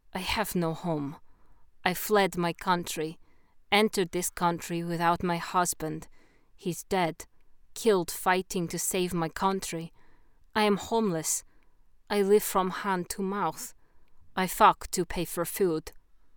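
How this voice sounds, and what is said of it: Put-on foreign accent. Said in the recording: “spoke in her foreign accent”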